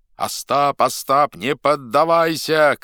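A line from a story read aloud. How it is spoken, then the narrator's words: Shouting. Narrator (Russian): кричал Тарас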